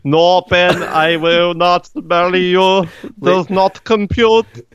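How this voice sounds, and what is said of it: Put-on Scottish accent, robot voice. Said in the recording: “She's got a Scottish accent.”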